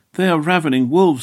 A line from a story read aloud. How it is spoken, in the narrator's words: he exclaimed